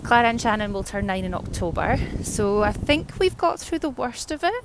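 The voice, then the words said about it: Scottish accent. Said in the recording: “we live in Scotland. You can probably hear from the accent.”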